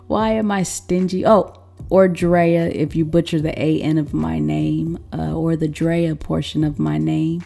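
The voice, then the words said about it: Smoky, husky voice with throat trouble. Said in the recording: “apologize for my voice this week. You know, it's extra smoky, extra sexy ... I got a little something going on in my throat ... me sounding like this”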